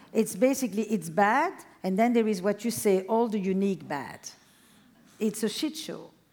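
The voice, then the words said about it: Speaks English with a non-native accent. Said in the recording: “I said it with my accent ... Shit show sounds classier with your accent than mine.”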